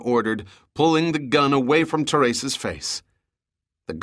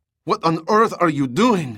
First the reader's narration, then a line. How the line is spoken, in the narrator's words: she cried